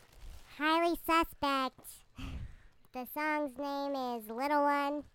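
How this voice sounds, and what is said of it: Squeaky high-pitched voice. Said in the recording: “In the helium voice.”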